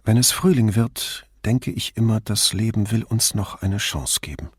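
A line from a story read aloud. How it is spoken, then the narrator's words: Normal voice. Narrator (German): sagte sie mit normaler Stimme zu Brunetti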